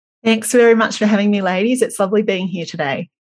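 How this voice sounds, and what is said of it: Australian English accent. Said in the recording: “do you love that accent ... you are in Melbourne, Australia”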